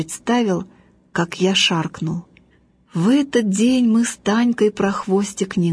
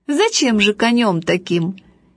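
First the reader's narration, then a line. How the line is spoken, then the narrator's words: Cheerful laughing father. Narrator (Russian): отец очень веселый сказал, смеясь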